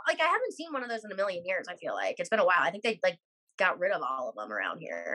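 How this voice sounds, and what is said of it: Usual voice. Nothing is said of it.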